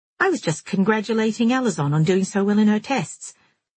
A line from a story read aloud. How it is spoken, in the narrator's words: Jilly said, too brightly